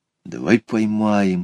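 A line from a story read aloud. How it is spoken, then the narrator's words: Whisper. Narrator (Russian): шепнул Петя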